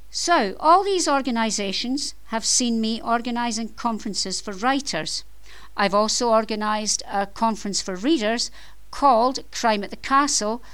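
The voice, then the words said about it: Scottish accent. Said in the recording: “I am Scottish. You may have noticed from my accent”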